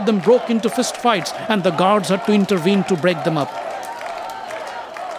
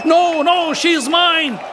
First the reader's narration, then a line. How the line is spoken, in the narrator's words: shouted the other